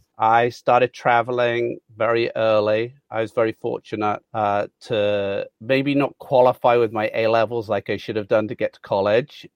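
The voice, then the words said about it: Mixed British accent. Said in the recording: “you have got a bit of a mixture of an accent ... I'm a very proud Brummie”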